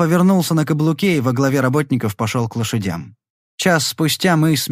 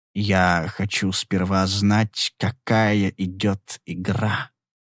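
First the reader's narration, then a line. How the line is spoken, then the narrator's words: Slow. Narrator (Russian): медленно сказал он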